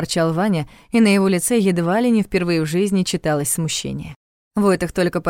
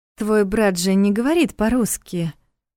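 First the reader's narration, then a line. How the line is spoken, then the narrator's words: Uncertain remark. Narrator (Russian): неуверенно заметила Лиля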